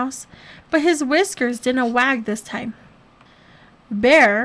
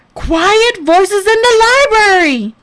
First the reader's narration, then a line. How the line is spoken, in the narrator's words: Bear bellowed